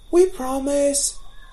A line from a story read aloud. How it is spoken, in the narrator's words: came the cry